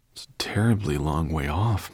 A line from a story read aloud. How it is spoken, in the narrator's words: murmured Ben